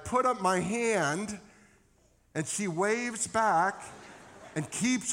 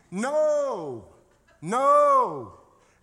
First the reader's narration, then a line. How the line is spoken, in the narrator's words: I'm screaming